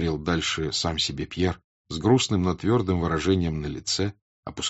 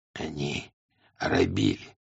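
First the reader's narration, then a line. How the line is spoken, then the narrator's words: Hoarse, trusting voice. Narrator (Russian): сказал хриплым, доверчивым голосом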